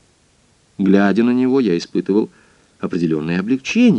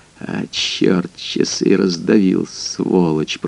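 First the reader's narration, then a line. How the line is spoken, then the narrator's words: Muttering. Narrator (Russian): пробормотал он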